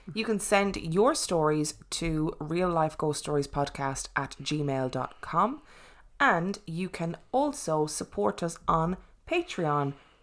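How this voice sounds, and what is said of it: Irish accent. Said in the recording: “My Irish accent makes THs followed by a D word really difficult”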